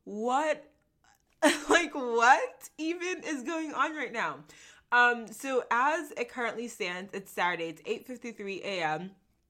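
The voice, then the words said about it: Excited, energetic voice. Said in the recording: “as you can hear in my voice, I'm super excited”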